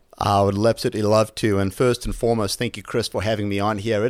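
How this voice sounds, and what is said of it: South African accent. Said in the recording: “as the accent probably gives it away, I'm certainly not local to the area. Originally from South Africa”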